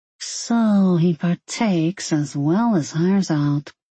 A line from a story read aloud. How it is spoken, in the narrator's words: Sylvie mumbled